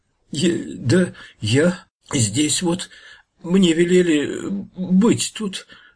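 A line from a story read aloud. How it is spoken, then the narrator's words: Stammering fearful mumble. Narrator (Russian): заикаясь от страха, забормотал подлешек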